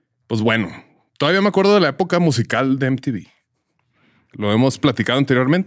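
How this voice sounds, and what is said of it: Old man voice, northern Mexican. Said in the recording (Spanish): “la voz de Don Silverio ... la voz de viejito ... Así hablan todos los abuelitos en el norte”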